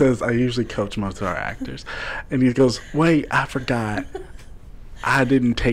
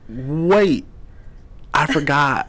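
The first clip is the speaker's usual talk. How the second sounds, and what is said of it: Convincing put-on Boston accent. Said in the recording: “that Boston accent is spot on”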